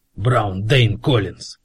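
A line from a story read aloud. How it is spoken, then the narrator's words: Sharp. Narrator (Russian): резко сказал Фит-Джеймс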